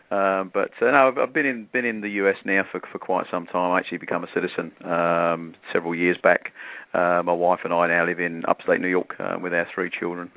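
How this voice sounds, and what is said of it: British accent that sounds Australian. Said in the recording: “9 out of 10 people think I'm Australian... do you think he sounds Australian? I think he does... that kind of dialect... our first UK guest”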